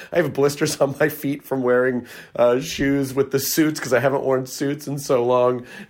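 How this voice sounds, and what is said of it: Hoarse, worn-out voice. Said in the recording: “as you can probably hear, my voice is shot because I've literally been shouting for like a week and a half”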